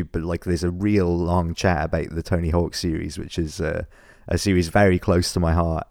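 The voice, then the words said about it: Scratchy voice. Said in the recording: “my voice is a little bit scratchy, as you can possibly tell.”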